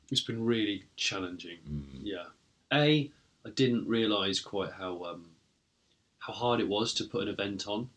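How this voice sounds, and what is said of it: Croaky, tired voice. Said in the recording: “my voice might be a bit croaky”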